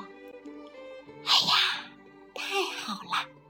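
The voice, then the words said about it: Soft, quiet voice. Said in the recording (Chinese): “小声地说”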